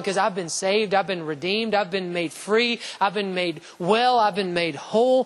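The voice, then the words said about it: Shouting preacher. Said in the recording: “If I shout, here's why I'm shouting. I'm shouting”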